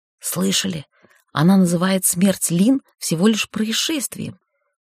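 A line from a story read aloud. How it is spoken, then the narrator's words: Servant's hiss. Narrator (Russian): прошипел кто-то из слуг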